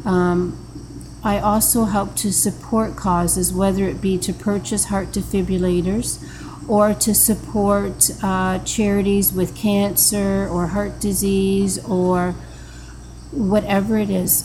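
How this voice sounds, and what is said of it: Emotional, wavering voice. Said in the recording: “now you can see my voice. I'm getting emotional talking about this.”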